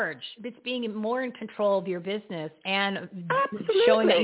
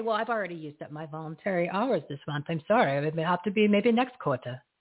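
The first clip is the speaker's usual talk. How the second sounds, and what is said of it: Put-on English accent. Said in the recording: “That's my English accent. I tried to do that. ... It sounded wonderful.”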